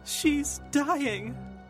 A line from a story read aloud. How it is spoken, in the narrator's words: Mum cried out